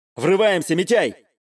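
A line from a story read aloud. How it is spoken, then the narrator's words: Yell. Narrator (Russian): заорал я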